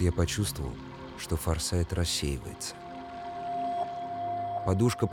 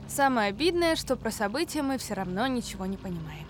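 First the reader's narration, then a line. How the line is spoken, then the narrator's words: Summing up, laughing. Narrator (Russian): подытожила Лена, засмеялась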